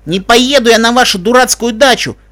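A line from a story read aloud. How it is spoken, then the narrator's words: Loud teenage shouting. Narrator (Russian): громко кричала кобылка-подросток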